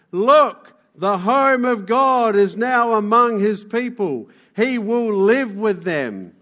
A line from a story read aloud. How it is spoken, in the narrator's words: a loud shout saying